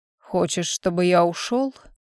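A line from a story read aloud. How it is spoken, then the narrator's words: Very quiet whisper. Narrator (Russian): Тихо, очень тихо прошептал дракон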